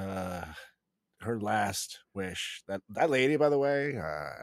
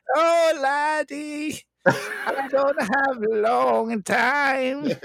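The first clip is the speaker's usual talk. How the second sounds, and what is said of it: Put-on Irish accent. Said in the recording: “with an Irish accent?”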